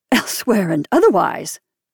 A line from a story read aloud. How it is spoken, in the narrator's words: I gasped